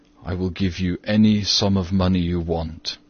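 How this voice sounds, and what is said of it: Speaks in a low voice. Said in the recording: “In a low voice.”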